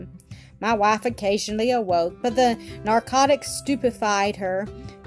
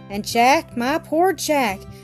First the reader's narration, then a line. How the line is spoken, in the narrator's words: sighed I, infected with his fears